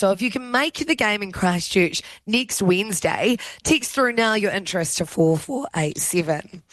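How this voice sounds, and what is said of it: Hoarse, strained voice. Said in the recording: “I am losing my voice. ... We both. ... screaming our heads off.”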